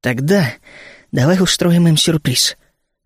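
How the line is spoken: Trembling whisper. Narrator (Russian): дрожащим голосом прошептал я на ухо коту

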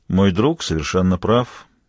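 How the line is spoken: Flat, colorless voice. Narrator (Russian): бесцветным голосом поддержал Хью

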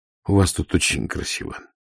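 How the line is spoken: Barely audible. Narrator (Russian): чуть слышно сказал Ваймс

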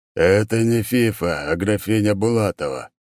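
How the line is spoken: Said, then exhaled. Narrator (Russian): проговорил он и выдохнул

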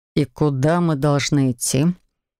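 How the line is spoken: Weary question. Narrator (Russian): устало спросил он

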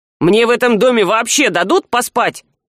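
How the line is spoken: Gloomy, angry question from above. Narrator (Russian): мрачно и зло спросил из-под потолочной темноты Саврянин

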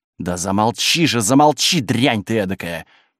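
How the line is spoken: Hissed. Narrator (Russian): прошипела мадемуазель Саже

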